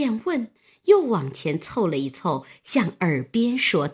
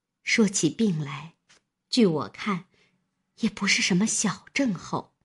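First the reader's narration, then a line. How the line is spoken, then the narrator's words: Sighing. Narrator (Chinese): 平儿叹道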